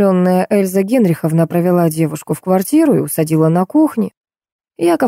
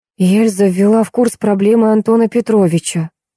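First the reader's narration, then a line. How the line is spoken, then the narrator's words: Gloomy interrupting. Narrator (Russian): мрачно перебила я Олега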